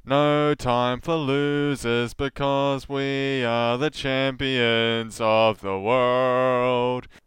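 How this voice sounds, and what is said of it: Drunken sung impression of a rock singer. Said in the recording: “That's how the drunk people here sound like when they're doing a Freddie Mercury impression”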